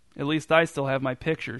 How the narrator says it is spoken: she said

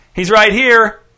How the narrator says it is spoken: Dez shouted back to his brother

